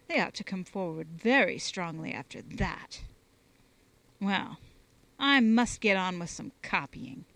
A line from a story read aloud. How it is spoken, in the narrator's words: the organist said dryly